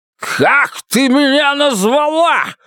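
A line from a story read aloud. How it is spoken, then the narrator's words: Shouting. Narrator (Russian): закричал он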